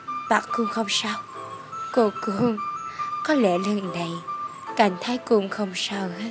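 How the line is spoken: Soft laughing reply. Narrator (Vietnamese): ta khẽ cười đáp

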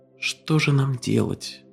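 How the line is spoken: Whisper. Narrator (Russian): прошептала она

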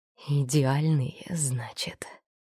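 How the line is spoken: Hoarse voice. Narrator (Russian): В голосе Лина проявилась хрипотца

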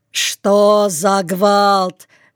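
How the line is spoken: Shout. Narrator (Russian): крикнул он

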